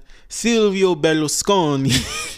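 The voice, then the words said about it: Put-on accent on a name. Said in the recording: “that little accent”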